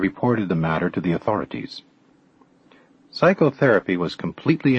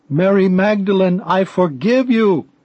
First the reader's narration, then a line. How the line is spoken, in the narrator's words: shouting